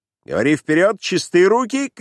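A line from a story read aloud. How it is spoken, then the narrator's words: Shouting from afar. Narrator (Russian): кричал еще издали ему Ковалев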